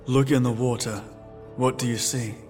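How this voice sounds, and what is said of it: Flat monotone voice. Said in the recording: “in a monotone voice”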